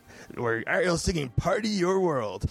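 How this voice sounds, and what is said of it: Radio DJ voice. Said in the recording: “That's my radio DJ voice.”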